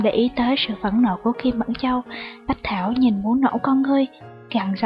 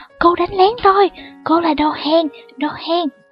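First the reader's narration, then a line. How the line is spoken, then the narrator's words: Angry loud shout. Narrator (Vietnamese): Kim Mẫn Châu phẫn nộ hét to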